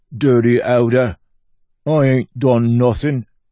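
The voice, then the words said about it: Mumbly put-on accent. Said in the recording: “Good accent, that was. Real mumbly”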